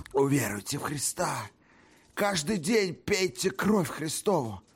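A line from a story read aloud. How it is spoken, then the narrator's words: Sad whisper. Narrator (Russian): Грустно прошептал он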